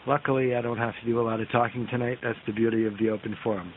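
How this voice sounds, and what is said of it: Raspy, hoarse voice. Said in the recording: “my voice is a little bit raspier than normal. I've got a little bit of a throat infection ... fighting off a bit of a bug”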